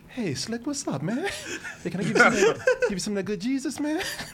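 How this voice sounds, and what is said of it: Smooth, slick pimp-style voice. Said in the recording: “Talking like a pimp selling Jesus.”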